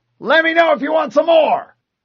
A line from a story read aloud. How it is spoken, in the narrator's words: a marine yelled